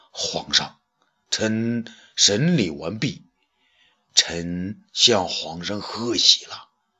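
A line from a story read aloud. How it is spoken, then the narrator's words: Serious, low voice. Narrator (Chinese): 严肃的、低声的对武帝说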